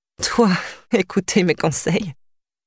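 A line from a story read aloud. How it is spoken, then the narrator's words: Sighing. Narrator (French): soupira Tara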